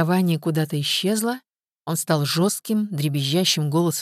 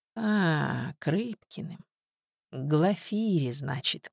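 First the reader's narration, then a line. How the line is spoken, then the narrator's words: Unpleasant drawl. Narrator (Russian): протянула Степанида, и голос ее Тоне не понравился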